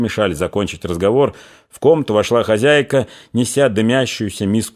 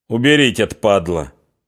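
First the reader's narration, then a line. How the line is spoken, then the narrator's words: Calm. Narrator (Russian): спокойно сказал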